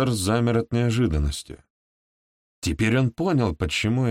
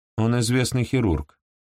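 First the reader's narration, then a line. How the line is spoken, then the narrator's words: Dry, curt. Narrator (Russian): сухо проронила Марси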